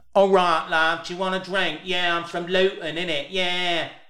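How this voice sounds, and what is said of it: Put-on Luton English accent. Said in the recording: “I'm going to do a Luton accent ... That's how the women sound ... That's how a posh person from Luton would speak ... That's how that accent is ... is terrible”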